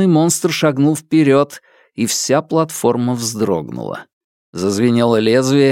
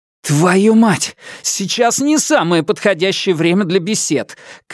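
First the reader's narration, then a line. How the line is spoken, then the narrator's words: Shouted. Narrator (Russian): крикнул я прямо в лицо мечу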